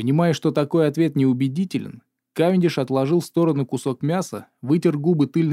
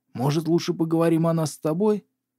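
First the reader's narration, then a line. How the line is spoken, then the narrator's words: Whisper. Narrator (Russian): прошептал он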